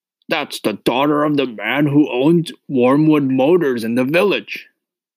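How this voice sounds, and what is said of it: Barking, gruff shouting woman's voice. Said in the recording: “Miss Trunchbull barked. She hardly ever spoke in a normal voice. She either barked or shouted.”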